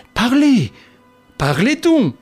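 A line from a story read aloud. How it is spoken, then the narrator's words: Exclaiming. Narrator (French): s'écria Monsieur d'Imbleval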